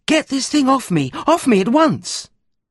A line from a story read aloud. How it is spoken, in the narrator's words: The sales girl shouts